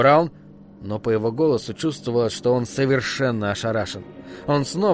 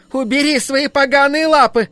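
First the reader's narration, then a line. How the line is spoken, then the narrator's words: Shout. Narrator (Russian): кассирша, закричав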